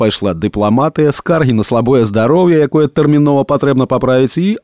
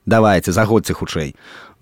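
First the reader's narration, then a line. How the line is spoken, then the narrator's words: Grumbling young woman. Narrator (Belarusian): Буркнула маладзіца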